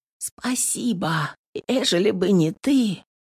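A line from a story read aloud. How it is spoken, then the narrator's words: Drowsy whisper. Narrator (Russian): уже погружаясь в сон, прошептала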